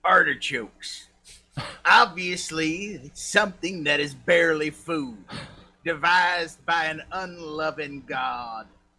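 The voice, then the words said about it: Put-on Southern accent. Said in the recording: “I'm going to do this with a southern accent”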